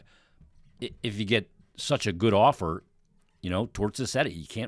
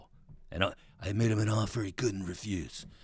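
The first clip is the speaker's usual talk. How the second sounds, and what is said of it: Imitates a movie character's voice. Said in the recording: “the Godfather deal... a bad impression”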